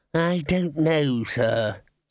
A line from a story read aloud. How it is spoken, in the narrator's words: said Ponder wearily